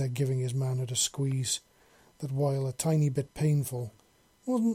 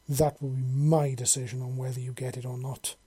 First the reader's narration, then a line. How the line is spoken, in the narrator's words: she said very firmly